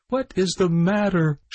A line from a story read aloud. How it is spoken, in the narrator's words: cried